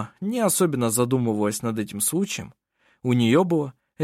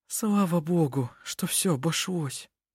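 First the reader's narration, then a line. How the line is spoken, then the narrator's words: Sighing. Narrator (Russian): вздохнула Гунила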